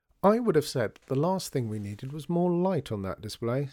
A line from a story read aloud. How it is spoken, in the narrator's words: said her father